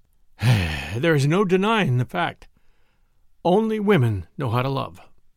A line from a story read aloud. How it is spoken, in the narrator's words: The Marquis, whose eyes were full of tears, sighed and said